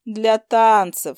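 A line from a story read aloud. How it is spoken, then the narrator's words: Calm. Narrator (Russian): спокойно закончила я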